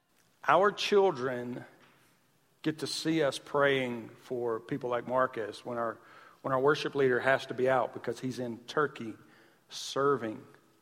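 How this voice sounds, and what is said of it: Southern American accent. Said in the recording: “I'm Southern, so our and our, it's the same thing. So I'm Southern ... Even my accent annoys me sometimes.”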